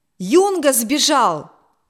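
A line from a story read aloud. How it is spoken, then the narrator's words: Alarmed shout, navigator. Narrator (Russian): закричал штурман, увидев удаляющуюся шлюпку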